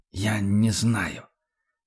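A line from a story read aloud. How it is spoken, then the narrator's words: Barely audible reply. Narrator (Russian): уже чуть слышно ответил фон Люфтенхаймер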